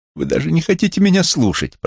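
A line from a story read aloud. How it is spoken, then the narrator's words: Moaning. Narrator (Russian): простонала она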